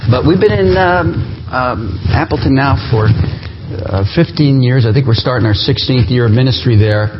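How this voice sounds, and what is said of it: New Jersey accent. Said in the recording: “I'm from New Jersey. You'll pick up that accent at some point.”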